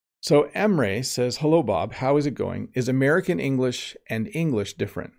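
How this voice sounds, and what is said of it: Slight Canadian English accent. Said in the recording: “my accent is Canadian and it's a lot more similar to American English than it is to British English ... I sound a lot more American than someone from, than I do British, definitely ... there is still a slight accent that I have”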